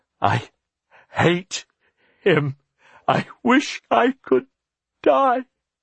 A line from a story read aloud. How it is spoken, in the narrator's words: In between sobs she gasped